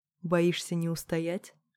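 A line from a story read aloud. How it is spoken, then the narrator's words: Whisper right at the ear. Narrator (Russian): шепнула, коснувшись уха губами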